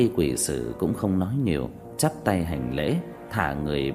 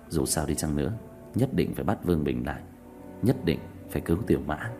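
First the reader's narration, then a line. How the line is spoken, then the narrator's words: Sighing. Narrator (Vietnamese): thở dài nói tiếp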